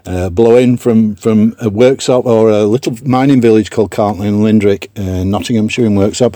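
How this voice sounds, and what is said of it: Non-local regional accent. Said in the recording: “as you can probably tell from my accent, I'm not from round here”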